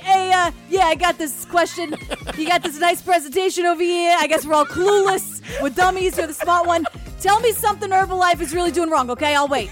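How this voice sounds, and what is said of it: Put-on Queens accent. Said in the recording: “that Queens accent”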